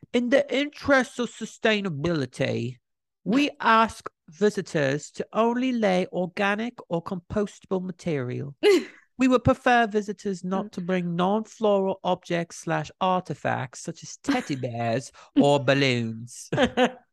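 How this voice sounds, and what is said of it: Put-on accent. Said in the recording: “I want to read the statement they released in a little accent. I'm gonna try my best.”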